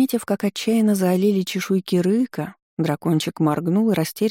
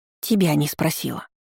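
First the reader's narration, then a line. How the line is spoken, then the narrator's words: Growling female dragon. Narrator (Russian): рыкнула драконица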